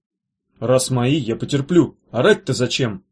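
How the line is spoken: Grumbled. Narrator (Russian): буркнул Меф

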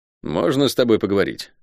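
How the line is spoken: Dry request. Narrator (Russian): сухо попросил Шен

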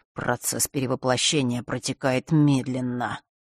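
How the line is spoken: Mutter. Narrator (Russian): пробормотал он

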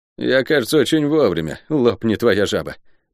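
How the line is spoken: Gloomy soldier. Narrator (Russian): мрачно выдал солдат

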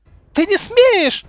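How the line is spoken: Witch's shriek. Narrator (Russian): завизжала ведьма

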